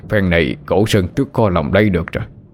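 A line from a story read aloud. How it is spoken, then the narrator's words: Sighing remark. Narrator (Vietnamese): Đoàn thở dài bảo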